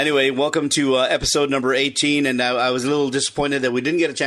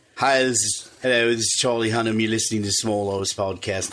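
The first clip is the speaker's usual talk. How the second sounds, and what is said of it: Muddled attempt at British accent. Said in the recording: “because he's British. ... I don't know what accent that was, but I was my attempt. It's a bit muddled.”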